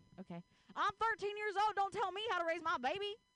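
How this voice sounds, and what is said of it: Put-on country accent. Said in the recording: “can you say something to me, but like in a country accent?”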